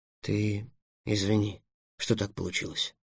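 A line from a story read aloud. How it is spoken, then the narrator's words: Mumbled. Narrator (Russian): промямлил Эллен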